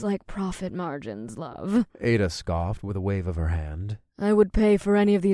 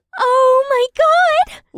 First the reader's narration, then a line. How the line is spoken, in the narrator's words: Leah squealed